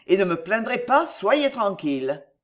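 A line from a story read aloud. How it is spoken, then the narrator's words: Laughing. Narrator (French): dit-il en riant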